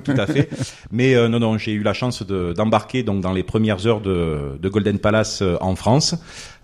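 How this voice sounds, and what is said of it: Marseille French accent. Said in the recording (French): “originaire de Marseille. Bon, je pense que mon accent le trahit.”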